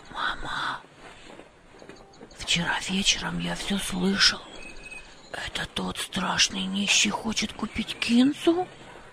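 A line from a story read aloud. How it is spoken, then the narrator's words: Whisper. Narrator (Russian): прошептал Хамид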